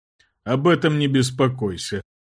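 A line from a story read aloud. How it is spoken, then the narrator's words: King chuckling. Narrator (Russian): хохотнул король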